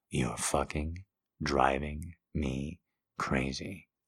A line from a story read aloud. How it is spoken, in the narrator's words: I mutter